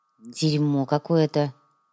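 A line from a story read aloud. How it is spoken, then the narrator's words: Disgusted grumble. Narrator (Russian): проворчал Артем, брезгливо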